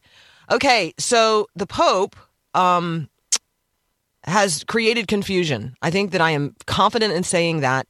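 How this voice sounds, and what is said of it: Congested voice from a cold. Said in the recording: “I am a little cruddy. I have a head cold... But I have a really good radio voice because of that.”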